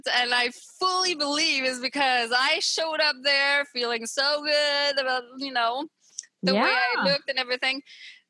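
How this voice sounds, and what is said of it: Quebec French-Canadian accent. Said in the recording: “you hear my accent... So I'm from the Montreal area in Quebec... back then, my accent was like 10 times thicker”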